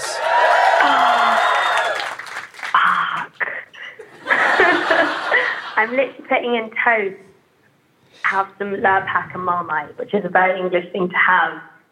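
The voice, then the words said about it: Charming upper-class English accent. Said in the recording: “you have a very charming accent ... I'm just going to sound like I own like ponies and an estate in England”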